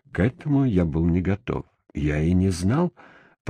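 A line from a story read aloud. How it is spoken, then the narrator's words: Muttering. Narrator (Russian): пробормотал я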